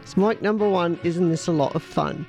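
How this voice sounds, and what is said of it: Put-on accent, well done. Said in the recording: “you've got to do the accent, Mum ... That was brilliant ... It's Spinal Tap.”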